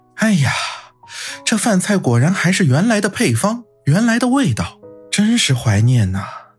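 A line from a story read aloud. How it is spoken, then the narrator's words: Wistful, nostalgic sigh. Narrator (Chinese): 安然不禁感叹道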